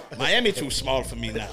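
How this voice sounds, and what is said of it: Put-on accent. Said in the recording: “I caught the accent.”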